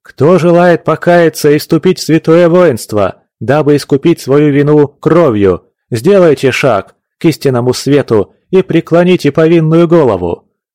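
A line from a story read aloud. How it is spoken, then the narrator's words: Loud priestly chanting. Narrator (Russian): Громко нараспев читал, словно молебен служил, рослый батюшка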